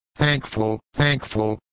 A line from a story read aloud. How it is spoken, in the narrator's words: muttered the humbled woman